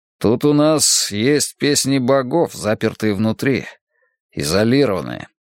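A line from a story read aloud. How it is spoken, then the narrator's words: Grumble. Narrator (Russian): проворчал он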